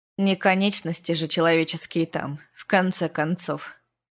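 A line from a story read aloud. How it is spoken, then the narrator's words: Curt remark. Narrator (Russian): Бросил Тим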